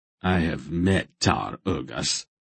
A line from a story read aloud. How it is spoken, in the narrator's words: Silk said grimly